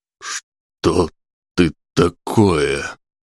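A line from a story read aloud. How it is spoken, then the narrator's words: Hoarse question. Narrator (Russian): севшим голосом спросил Сергейцев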